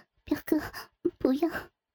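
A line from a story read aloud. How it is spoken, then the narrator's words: Trembling voice. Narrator (Chinese): 阿奇颤声说道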